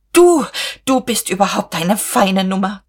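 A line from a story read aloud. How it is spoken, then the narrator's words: Hissed. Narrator (German): zischte sie Käthchen zu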